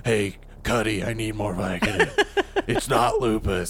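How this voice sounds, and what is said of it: Imitates another person's voice. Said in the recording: “This is my perfect house impression ... That's good. That's quality.”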